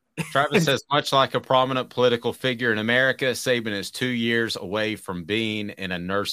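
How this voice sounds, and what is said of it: Usual voice. Nothing is said of it.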